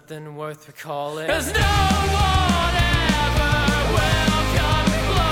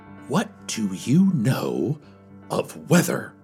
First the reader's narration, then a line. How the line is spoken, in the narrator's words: I stammered